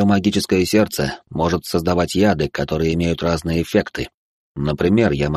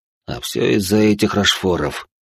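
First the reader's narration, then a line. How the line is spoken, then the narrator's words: Through gritted teeth. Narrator (Russian): процедил он сквозь зубы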